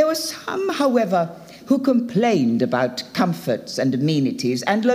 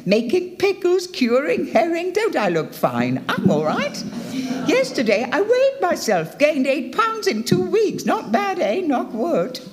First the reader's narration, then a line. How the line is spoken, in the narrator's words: some would exclaim